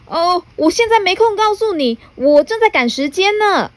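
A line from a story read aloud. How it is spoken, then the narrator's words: Hurried shout while running. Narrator (Chinese): 匆忙先生 一边跑一边回头喊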